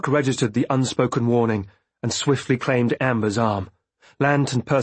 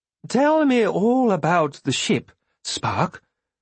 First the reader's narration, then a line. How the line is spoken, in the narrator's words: Amber requested in an unconcerned voice